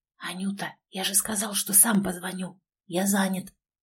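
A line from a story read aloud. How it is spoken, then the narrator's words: Displeased whisper. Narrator (Russian): недовольно прошептал он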